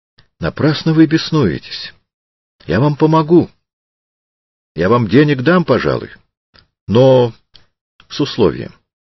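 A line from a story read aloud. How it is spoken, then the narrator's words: Calm. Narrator (Russian): Триродов спокойно сказал ему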